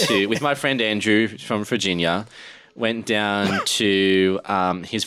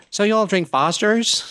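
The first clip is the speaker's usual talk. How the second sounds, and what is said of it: Good American East Coast accent. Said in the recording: “That was a good East Coast accent.”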